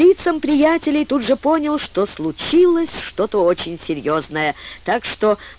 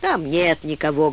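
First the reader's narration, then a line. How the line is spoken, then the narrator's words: Sad report. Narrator (Russian): грустно сообщил Саймон Чудак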